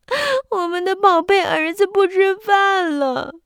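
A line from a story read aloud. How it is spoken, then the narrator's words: Sad crying shout. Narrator (Chinese): 他们哭了起来，伤心的喊道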